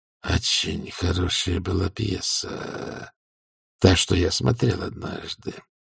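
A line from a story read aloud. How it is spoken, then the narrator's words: Dreamy drawl. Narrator (Russian): мечтательно протянул герцог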